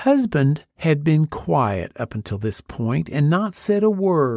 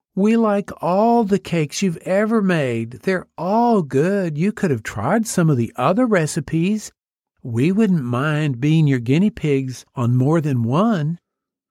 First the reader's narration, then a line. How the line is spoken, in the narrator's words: her daughter whined